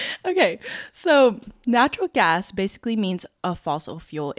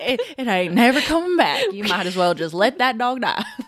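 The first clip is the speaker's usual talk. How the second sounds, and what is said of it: Put-on country accent. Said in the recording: “my country accent”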